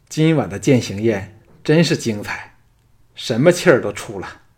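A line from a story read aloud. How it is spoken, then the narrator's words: Breathless laughing strain. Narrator (Chinese): 三位老朋友早笑得东翻西倒，安谷希喘着气，辛苦地说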